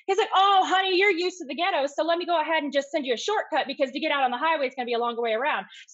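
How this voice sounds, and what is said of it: Fast mixed Midwestern-Southern accent. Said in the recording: “my accent's weird. It's like a weird bastardization of, you know, I guess Michigan and Midwest and the South, you know, mixed all together... Plus I talk fast.”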